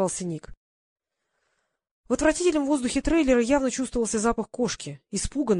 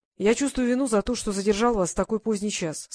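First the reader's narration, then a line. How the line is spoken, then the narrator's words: Plain. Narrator (Russian): сказал Квиллер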